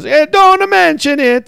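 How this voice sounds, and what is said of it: Put-on Italian accent. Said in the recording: “He has an Italian accent”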